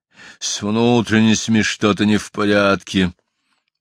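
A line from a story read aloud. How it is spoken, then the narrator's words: Old lion's sudden growl. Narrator (Russian): Старый лев неожиданно зарычал по-прежнему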